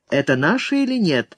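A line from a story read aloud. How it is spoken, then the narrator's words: Calm question. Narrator (Russian): спокойно спросил Торанага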